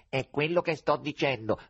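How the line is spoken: Nasal emphatic repetition. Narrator (Italian): ribadì il rosso con la sua voce nasale

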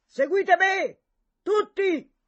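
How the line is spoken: Loud rallying cry, renewed hope. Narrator (Italian): Nella ritrovata speranza di vittoria, egli incitava a gran voce

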